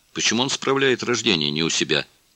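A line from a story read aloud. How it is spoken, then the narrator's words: Plain. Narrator (Russian): спросила ККК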